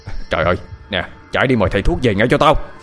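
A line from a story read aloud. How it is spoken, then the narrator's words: Shouted order. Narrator (Vietnamese): Ông Lành quát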